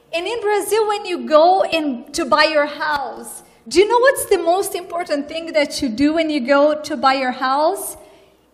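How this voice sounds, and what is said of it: Brazilian-accented English. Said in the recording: “you hear my accent. I am from another culture. I'm from Brazil.”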